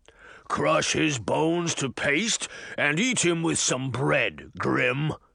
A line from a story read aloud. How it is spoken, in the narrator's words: the giant grunted